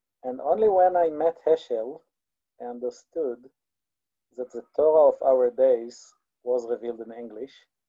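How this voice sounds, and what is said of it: Israeli-accented English. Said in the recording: “my Israeli accent”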